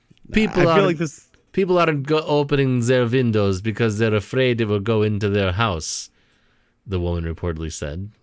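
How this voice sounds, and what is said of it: Attempted Polish, Eastern European accent. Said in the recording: “How do you do a Polish accent? ... I'm going to try it. ... I don't think that was Polish ... Well, I'll do Eastern European, maybe.”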